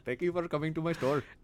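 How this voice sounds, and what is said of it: Apu from The Simpsons impression. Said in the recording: “is a boo from The Simpsons”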